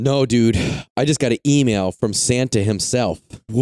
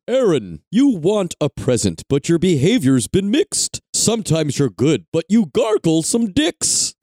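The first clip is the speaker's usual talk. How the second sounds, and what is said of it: Santa Claus character voice. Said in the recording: “in a Santa voice or a ... voice? Read it in a Santa voice.”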